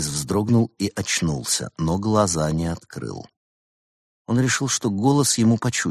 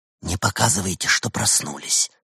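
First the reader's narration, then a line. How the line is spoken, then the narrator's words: Whisper. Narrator (Russian): шепнул голос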